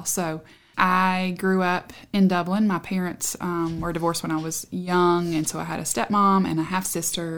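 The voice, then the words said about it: Southern US accent. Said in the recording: “this accent, that I couldn't be from here ... Southwest Virginia ... deepened the accent by going to a college in Tennessee”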